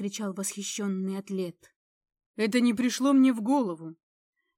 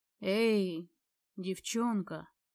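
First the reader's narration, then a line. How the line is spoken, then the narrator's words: Low voice. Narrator (Russian): сказал он низким голосом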